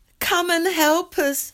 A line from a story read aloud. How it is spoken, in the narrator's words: they shouted